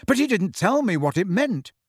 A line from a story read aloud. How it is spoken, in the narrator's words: said Harry impatiently